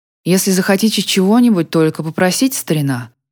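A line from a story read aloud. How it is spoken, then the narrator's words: Plain. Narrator (Russian): сказал он Нику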